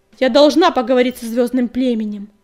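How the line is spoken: Barking. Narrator (Russian): рявкнула синяя звезда

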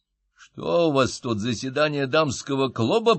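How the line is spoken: Growling. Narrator (Russian): прорычал я

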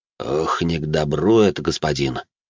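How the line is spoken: Worried voice, butler. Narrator (Russian): обеспокоенным голосом произнес дворецкий

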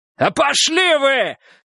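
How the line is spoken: Yelled at full strength. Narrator (Russian): заорал, что было сил Переверзев

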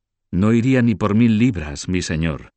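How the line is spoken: Exclaimed. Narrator (Spanish): exclamó Gucho

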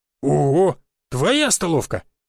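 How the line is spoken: Joyful rasp. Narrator (Russian): радостно прохрипел Жига

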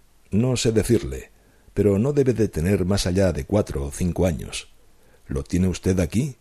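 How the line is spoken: Firm, relieved voice. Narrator (Spanish): con el aire de un hombre aligerado de una intolerable carga, y después contestó con voz firme

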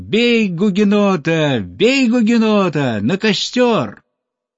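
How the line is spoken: Children shouting loudly. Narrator (Russian): А малыши кричали изо всех сил

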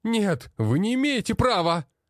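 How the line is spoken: Wailing yell. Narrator (Russian): вопил тот

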